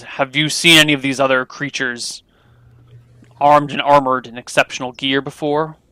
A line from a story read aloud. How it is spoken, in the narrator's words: the Baron grunts again, says